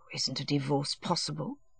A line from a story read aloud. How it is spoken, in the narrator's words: he said feebly